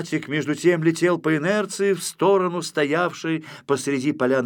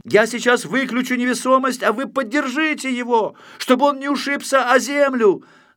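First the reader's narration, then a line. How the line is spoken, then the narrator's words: Shouting from afar. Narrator (Russian): закричал Знайка издали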